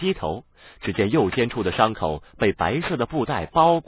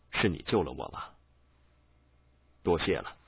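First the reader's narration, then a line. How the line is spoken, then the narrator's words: Low voice. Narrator (Chinese): 他低声道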